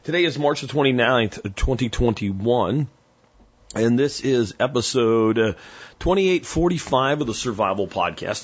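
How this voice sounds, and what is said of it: Slightly strained voice. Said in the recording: “You might hear that my voice is a little bit strained.”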